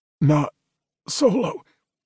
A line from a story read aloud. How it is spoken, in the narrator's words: he said, his voice straining